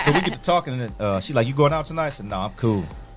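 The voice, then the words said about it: Smooth deep radio voice. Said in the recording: “you sound like Donnie Simpson, man. Like, you got, like, that real radio voice”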